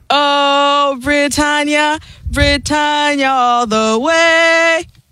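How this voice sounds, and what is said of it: Sung weak put-on British accent. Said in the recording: “extremely limited ... The only thing that's more limited is her British accent.”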